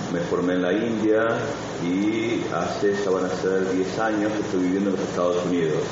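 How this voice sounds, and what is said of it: Argentine Spanish accent. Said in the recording (Spanish): “mi acento es de Argentina”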